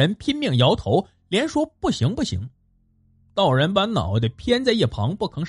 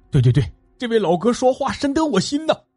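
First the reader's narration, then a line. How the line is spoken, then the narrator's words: Loud. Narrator (Chinese): 船夫也大声说道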